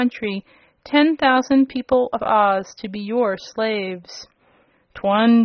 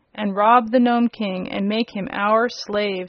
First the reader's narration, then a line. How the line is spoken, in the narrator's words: said another